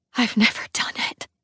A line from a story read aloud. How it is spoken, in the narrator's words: I whisper